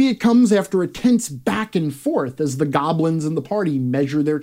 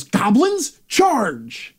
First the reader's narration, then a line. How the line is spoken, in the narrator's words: Ardric yells